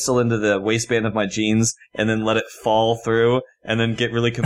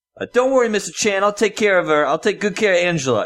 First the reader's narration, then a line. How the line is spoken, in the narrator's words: yell